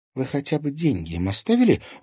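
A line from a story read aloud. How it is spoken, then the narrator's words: Indignant question. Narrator (Russian): возмущенно спросила Алиса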